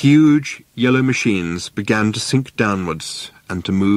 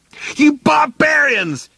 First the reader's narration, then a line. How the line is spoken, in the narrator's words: he yelled